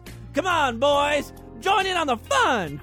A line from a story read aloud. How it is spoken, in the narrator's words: Crispy yelled